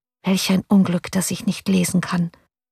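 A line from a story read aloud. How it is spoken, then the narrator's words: Quiet, to herself. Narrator (German): sagte sie leise zu sich selbst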